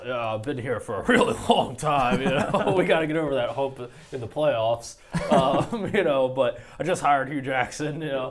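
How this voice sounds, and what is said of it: Poor imitation of another person's voice. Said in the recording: “Is that your best Marvin Lewis impression? It's terrible. ... it's terrible, Marvin.”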